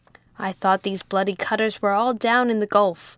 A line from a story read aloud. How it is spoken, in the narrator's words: growled the captain